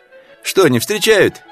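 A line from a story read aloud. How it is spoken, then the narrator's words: Cheerful question. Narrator (Russian): весело спрашивает она Панкова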